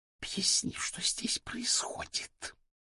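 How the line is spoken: Hissing question. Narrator (Russian): Анастасия Федоровна шипящим голосом спросила

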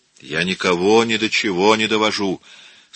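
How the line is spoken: Anguished exclamation. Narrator (Russian): с тоской воскликнул Микеланджело

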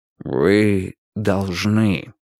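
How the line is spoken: Gentle reminder. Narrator (Russian): мягко напомнил Вудвард

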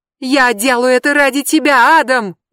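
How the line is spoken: Screamed from behind. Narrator (Russian): завопила Брэнди за его спиной

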